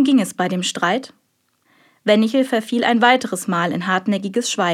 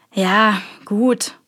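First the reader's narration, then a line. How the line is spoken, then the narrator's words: Sighing. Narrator (German): seufzte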